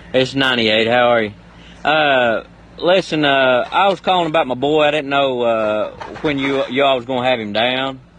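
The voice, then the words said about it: Convincing put-on accent. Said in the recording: “The accent in this is Oscar-worthy.”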